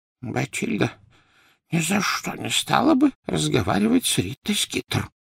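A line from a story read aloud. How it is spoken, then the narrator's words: Whisper. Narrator (Russian): прошептал Дош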